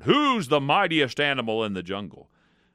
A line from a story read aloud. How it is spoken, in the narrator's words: roared